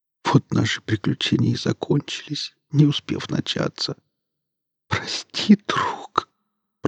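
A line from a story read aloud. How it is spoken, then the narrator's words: Weak, parched whisper. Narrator (Russian): прошептал Серега, разлепляя запекшиеся губы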